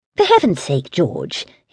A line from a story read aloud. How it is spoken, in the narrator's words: his mother snapped, exasperated